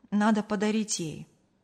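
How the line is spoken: Sighed. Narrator (Russian): вздохнул Артур

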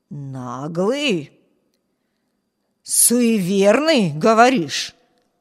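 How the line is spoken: Hoarse rasp. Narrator (Russian): прохрипел голос

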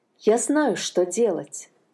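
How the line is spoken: Plain. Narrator (Russian): сказала находчивая Анна

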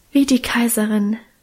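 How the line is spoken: Emotional sigh. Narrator (German): seufzte Minchen gefühlvoll

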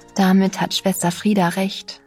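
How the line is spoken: Very gentle. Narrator (German): sagte ich jetzt sehr sanft

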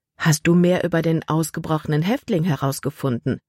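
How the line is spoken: Plain. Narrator (German): fragte sie

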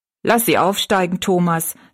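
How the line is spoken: Plain. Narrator (German): sagte die Frau

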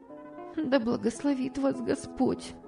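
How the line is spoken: Young woman speaking. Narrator (Russian): сказала молодая женщина

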